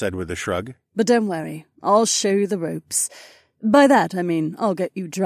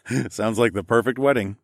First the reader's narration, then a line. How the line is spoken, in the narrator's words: I chuckled